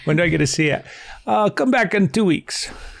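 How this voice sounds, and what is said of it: Put-on Italian accent. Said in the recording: “they had an Italian accent. Oh, no. Oh, no, I'm going to start doing accents now.”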